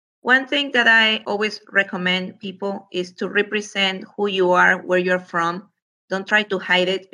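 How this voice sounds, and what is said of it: Speaks with a noticeable accent. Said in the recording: “my accent hasn't gone away”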